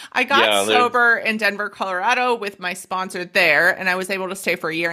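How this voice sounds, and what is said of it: Australian accent. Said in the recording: “So I'm very Australian. Sorry about the accent.”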